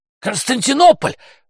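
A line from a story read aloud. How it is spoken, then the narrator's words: Excited shout. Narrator (Russian): выкрикнула Макласки, не в силах усидеть на месте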